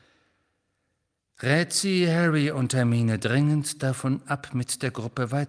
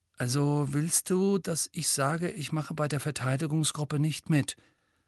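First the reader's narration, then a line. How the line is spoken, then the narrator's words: Murmured. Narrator (German): murmelte schließlich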